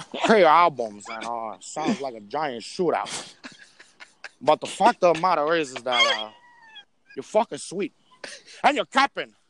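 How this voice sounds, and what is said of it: Imitates another person's voice. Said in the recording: “I start doing the fucking Pacino lip ... your impression is pretty fucking good”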